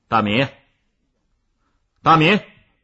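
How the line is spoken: Angry shouting. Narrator (Chinese): 孙老师真的生气了，他大声的叫着

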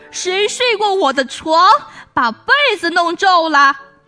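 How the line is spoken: Papa bear's frightening roar. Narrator (Chinese): 熊爸爸用可怕的声音哇哇叫

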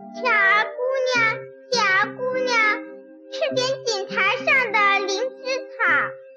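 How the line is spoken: Calling out. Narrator (Chinese): 有谁在叫她

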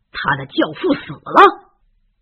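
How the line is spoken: Loud question. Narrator (Chinese): 菲农姨父大声的问

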